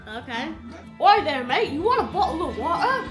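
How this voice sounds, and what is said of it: Put-on English accent. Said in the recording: “Can you do the English accent again? Do the English accent.”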